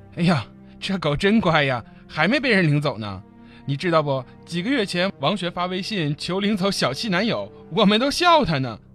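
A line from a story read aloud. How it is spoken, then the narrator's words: Half-joking. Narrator (Chinese): 他半开玩笑地说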